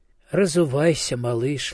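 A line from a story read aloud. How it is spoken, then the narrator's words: Gentle mother. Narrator (Russian): ласково говорила мать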